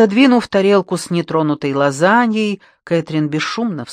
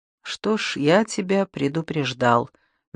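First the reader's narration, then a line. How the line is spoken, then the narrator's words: Soft, gentle. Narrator (Russian): мягко проговорил Иден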